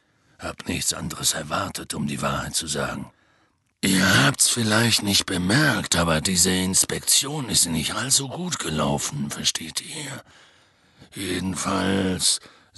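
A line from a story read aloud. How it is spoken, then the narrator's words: Heavy sigh. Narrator (German): seufzte schwer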